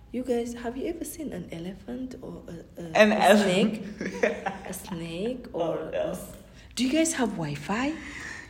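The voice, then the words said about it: Switches into an imitated accent. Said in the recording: “the way you switched your accent”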